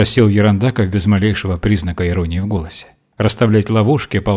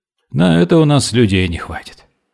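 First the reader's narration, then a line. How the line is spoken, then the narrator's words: Sigh. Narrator (Russian): вздохнул ротмистр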